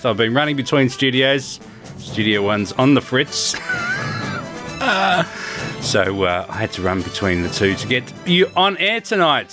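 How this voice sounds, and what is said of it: Out of breath. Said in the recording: “Sorry, I'm a bit out of breath.”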